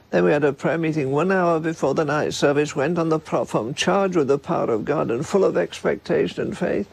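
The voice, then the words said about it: Strong accent, elderly voice. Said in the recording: “his accent is strong and his voice is elderly and maybe a bit hard to understand at times”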